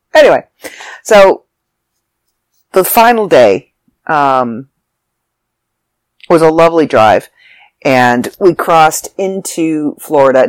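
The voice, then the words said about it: Raspy, phlegmy congested voice. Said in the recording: “I'm a little raspy and a little coffee and a little phlegmy ... my chest is congested”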